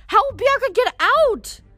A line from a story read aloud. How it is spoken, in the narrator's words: She yelled